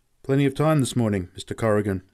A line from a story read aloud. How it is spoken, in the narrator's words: said